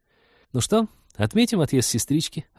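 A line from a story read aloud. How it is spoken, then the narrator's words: Cheerful suggestion. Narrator (Russian): радостно предложила Полина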